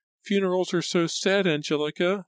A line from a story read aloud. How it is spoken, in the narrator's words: she wailed